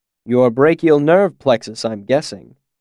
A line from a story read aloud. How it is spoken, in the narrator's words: Quoth said dryly